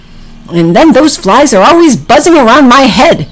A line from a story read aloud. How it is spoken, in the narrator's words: said Oliver kind of angrily